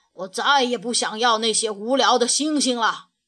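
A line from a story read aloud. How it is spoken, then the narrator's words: Bad-tempered angry roar. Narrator (Chinese): 坏脾气的格拉夫冲着小兔子怒吼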